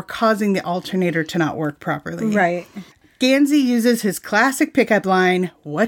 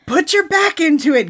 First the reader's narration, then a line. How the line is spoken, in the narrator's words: shouted breathlessly